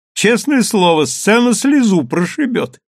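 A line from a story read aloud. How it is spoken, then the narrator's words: Mocking. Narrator (Russian): насмешливо прищурился Чезаре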